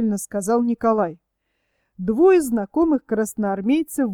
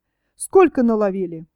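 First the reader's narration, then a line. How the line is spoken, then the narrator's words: Businesslike question. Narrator (Russian): деловито спросил у высокого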